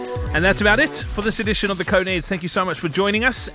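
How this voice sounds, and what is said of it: South African accent. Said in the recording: “hearing South African accent every day ... at least you get to hear a South African voice daily”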